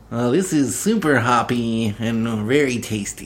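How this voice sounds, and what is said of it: Weird nerdy beer-guy character voice. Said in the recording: “Do your beer guy voice. ... Say something nerdy about beer in a weird beer guy voice.”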